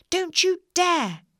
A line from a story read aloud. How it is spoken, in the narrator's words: she shouted